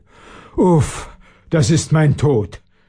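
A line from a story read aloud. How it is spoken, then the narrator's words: Groaning man. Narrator (German): stöhnte der Schlossherr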